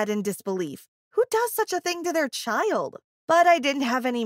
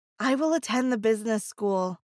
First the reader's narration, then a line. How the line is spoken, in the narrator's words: I said in a disappointed tone